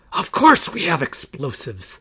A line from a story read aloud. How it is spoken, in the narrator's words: the leader hissed